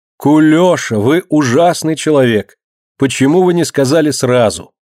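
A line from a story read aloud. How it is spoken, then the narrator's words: Cheerful shout. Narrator (Russian): Весело кричит Марина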